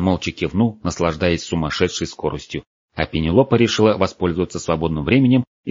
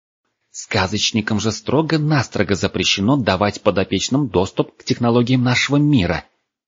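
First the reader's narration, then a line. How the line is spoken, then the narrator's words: Furious hiss. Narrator (Russian): яростно зашипела на него девушка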